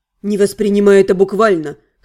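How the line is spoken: Smirking mage. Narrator (Russian): хмыкнул маг

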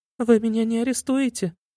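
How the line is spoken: Sobbing silly girl. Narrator (Russian): всхлипнула глупышка

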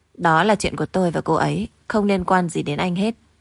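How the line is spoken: Scoffing, cold. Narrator (Vietnamese): Lục Trình Dương cười nhạo một tiếng, cũng lạnh lùng nói

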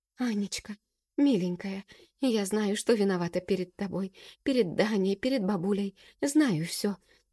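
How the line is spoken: Rapid tearful babbling. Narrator (Russian): тараторит, задыхаясь от слез

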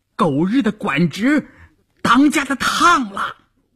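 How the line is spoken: Someone shouting. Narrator (Chinese): 有人喊

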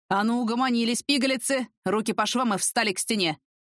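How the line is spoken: Sharp growl. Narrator (Russian): рыкнул Сокольский

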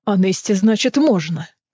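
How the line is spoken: Growl. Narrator (Russian): прорычал Кассиан

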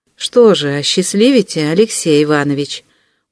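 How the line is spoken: Very timid. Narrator (Russian): Ужасно робко закончил

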